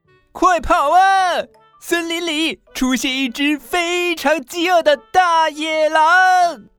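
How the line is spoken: Shouting into someone's ear. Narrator (Chinese): 兔子再次对着睡鼠妹妹的耳朵大喊

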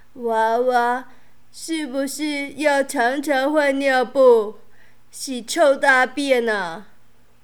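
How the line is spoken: Hoarse old woman. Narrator (Chinese): 老婆婆沙哑的声音回答

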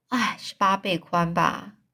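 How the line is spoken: Stunned, barely speaking. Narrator (Chinese): 五右卫门惊讶的连话都快说不出来了

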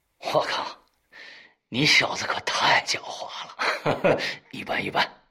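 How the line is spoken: Smiling, patient. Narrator (Chinese): 陆中微笑的耐心解释道

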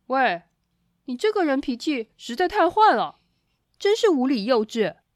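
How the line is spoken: Loud. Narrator (Chinese): 他也大声的说

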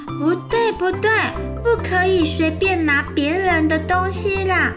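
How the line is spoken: Shout. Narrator (Chinese): 大叫

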